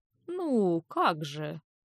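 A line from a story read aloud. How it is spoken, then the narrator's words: Muttered. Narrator (Russian): пробормотал он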